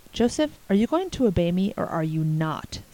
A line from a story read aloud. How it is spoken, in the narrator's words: said Anne